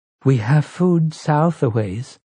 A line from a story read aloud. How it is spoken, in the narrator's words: Zelia said timidly